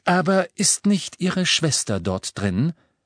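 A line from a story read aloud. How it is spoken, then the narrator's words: Plain. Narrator (German): fragte Professor McGonagall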